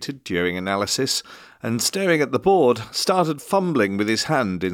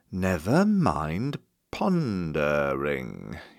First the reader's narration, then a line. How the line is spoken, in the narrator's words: he drawled